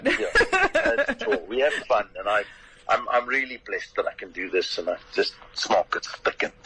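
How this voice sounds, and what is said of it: Distinctive own accent. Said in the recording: “you've just got the way to say it as an accent. I can't do the accent ... the accent, I'm afraid, is all yours”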